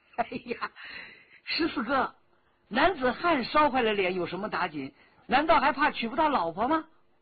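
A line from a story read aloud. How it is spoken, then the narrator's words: Blunt, unguarded. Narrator (Chinese): 口没遮拦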